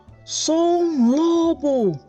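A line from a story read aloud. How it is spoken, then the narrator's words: Shouting. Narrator (Portuguese): Ele gritou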